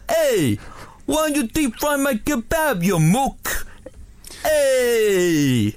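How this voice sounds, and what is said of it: Put-on Glaswegian accent. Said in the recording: “I am off to perfect my Glaswegian accent ahead of our live show. I'm going to give it a go.”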